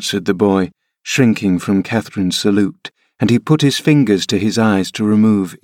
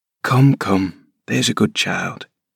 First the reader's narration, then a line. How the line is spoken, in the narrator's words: I whispered